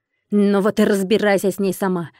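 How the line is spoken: Harsh bark. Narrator (Russian): рявкнула драконище

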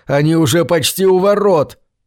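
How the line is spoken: Barked shout. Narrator (Russian): рявкнул

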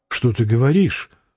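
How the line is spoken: Gentle reproach. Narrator (Russian): мягко упрекнула его Вера Петровна

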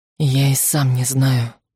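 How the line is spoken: Whispered. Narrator (Russian): прошептал

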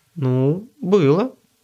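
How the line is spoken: Uncertain reply. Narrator (Russian): неуверенно ответила она

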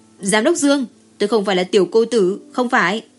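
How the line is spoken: Loud shout. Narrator (Vietnamese): Bình tĩnh trở lại, lúc này Cố Đức Mạn mới hét lớn

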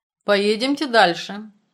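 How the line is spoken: Stern. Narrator (Russian): строго сказал Горный

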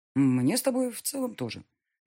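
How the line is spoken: Mocking. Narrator (Russian): насмешливо откликнулся Эдуард

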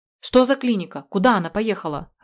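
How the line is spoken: Barking angrily. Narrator (Russian): рявкнул я

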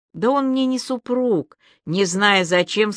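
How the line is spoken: Plain. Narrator (Russian): сказала Аля

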